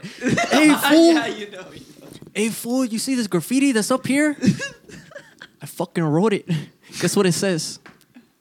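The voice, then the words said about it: Put-on Mexican cholo accent. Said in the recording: “I'm pretty good with accents. ... I can be a Mexican man for you. ... I can be a cholo.”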